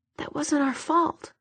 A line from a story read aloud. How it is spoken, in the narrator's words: he said, softly